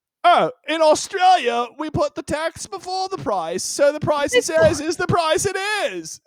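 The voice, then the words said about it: Put-on Australian accent. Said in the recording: “That was the best accent... You really did a good job showcasing the British settlement element of the Australian identity.”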